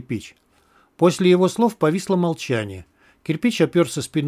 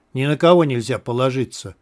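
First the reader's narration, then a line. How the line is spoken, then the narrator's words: Grumbling mutter. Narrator (Russian): пробурчал Сидорович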